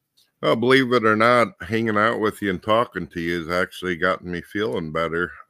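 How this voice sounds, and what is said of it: Congested, stuffy, monotone voice. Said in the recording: “I'm extremely stuffed up and I've been sick. My throat's sore and I'm stuffed on the left side of my head ... I'm a lot more monotone than usual”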